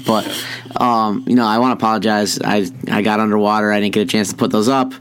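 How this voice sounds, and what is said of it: Raspy voice. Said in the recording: “as you can tell by my voice. I'd like to apologize for my voice too... it's kind of raspy and sexy today”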